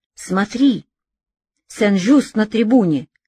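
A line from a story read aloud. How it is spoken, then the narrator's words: Strange startled cry. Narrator (Russian): вскрикнул не своим голосом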